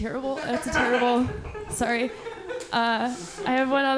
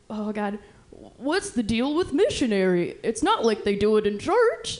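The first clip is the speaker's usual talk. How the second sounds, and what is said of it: Deliberately bad Jerry Seinfeld impression. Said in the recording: “I'm also really bad at impersonations ... I'm really into Jerry Seinfeld. And I'd be like, cool, I got it”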